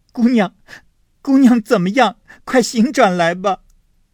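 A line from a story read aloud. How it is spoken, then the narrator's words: Calling out. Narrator (Chinese): 探春也叫了一回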